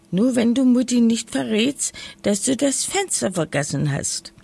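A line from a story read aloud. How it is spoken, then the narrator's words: Giggling. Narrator (German): kicherte Lisa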